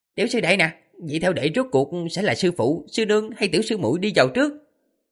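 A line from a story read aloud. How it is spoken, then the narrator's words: Delighted eager question. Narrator (Vietnamese): Đỗ Tức Thư vỗ đùi, vẻ mặt hân hoan, dáng điệu hớn hở rồi hỏi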